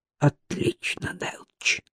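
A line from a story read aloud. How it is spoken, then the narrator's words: Whispered. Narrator (Russian): прошептал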